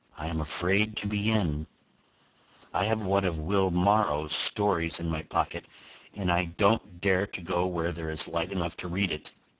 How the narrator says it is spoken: the journalist replied, with a drear autumnal cadence in his speech, like the moan of a leaf-laden wind

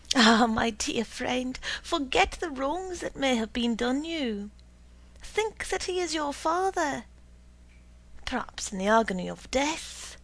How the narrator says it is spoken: she sighed

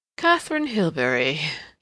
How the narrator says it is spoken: he repeated, with a curious little chuckle

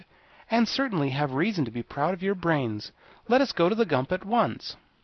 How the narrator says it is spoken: she exclaimed

